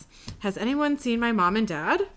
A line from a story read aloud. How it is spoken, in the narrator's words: Dean says quietly to Sam, awkward